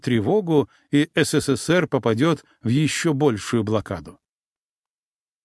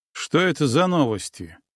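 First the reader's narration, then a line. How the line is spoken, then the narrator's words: Snorting. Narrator (Russian): хмыкнул я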